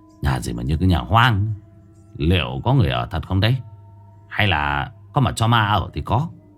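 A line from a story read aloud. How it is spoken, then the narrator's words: Audible muttering. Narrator (Vietnamese): lẩm bẩm, nhưng cũng đủ để cho người bên cạnh nghe được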